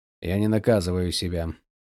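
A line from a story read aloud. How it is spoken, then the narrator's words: Grumbling. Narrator (Russian): проворчал он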